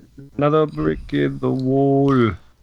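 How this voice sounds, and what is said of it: Poorly done put-on accent. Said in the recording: “That's a terrible accent.”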